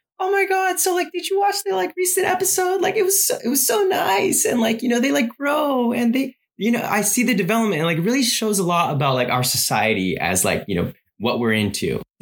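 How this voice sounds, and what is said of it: Impression of a friend's gushing voice. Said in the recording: “that impression of Allison, by the way. That's hilarious.”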